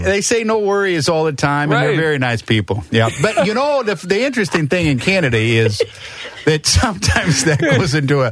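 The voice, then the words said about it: Put-on Canadian accent. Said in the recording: “With this accent, here's the thing. It's so good. I can smell the Canadian bacon off your breath.”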